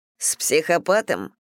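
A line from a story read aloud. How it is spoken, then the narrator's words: Grumbled mutter. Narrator (Russian): буркнул Стив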